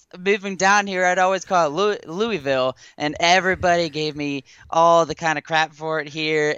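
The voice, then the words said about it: Kentucky regional accent. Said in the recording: “Dude, I love your accent. I can tell you're from Louisville.”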